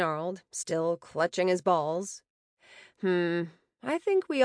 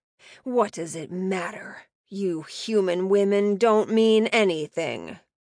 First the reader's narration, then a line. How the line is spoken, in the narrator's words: spat